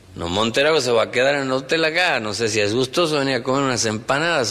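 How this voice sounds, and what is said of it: Slow, measured northern Argentine accent. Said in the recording (Spanish): “el santiagueño es muy pausado”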